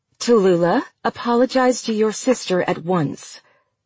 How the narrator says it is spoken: Daphne said

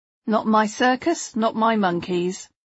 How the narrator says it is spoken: Richard replied flatly

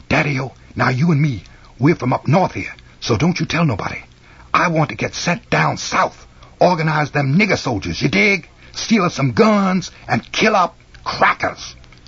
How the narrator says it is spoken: whispered fast in his ear

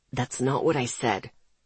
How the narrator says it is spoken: he said quietly

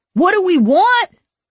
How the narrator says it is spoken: A boy shouted

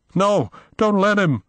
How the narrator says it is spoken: Will cried

